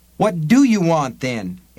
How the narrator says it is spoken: Eddie cried

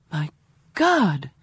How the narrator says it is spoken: I exclaim

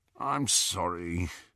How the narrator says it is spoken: Ron said, moaning a little

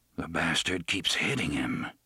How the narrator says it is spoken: murmured

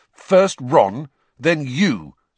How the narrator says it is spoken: said Harry angrily

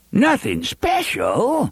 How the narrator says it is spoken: Avery said, laughing

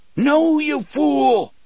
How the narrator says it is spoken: Brutal yelled

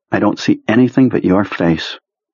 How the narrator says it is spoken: Beave sighed

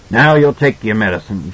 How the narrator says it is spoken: Jack grunted

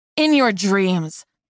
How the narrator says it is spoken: Darcy snapped

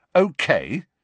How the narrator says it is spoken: said Harry irritably

